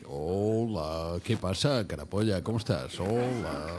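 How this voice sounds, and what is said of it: Imitates another person's voice. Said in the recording (Spanish): “Es mi imitación de Andreu ... sí, la saco bien”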